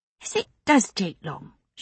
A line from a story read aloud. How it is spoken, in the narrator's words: she said crossly